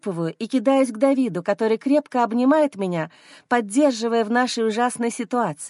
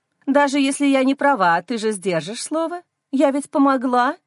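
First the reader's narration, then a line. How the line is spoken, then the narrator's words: Ingratiating tone. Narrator (Russian): говорит заискивающим тоном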